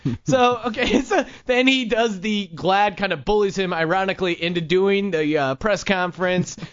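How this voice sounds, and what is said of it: Usual voice. Nothing is said of it.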